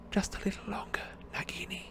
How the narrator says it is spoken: he whispered

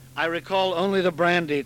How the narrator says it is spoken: Tallulah said

